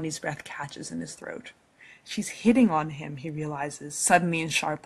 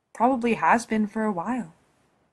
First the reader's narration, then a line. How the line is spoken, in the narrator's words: he says, keeping his voice as even as possible